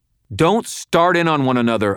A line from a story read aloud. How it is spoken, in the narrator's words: I snapped